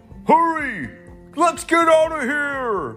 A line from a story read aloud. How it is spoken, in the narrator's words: the bad guys shouted